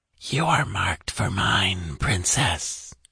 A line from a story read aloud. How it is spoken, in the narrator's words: came the gloating whisper